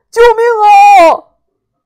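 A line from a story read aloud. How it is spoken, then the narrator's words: Terrified cry for help. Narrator (Chinese): 吓得老三喊救命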